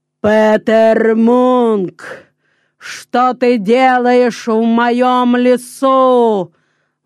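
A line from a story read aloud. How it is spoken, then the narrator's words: Thunderous booming voice. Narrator (Russian): сказал великан громовым голосом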